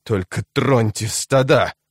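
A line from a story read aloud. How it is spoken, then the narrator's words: Growled. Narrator (Russian): прорычал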